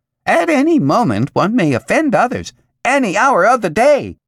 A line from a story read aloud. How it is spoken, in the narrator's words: The commercial squeaked